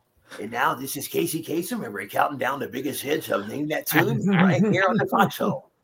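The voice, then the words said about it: Bad Casey Kasem impression. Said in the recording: “Bad Casey Kasem impression.”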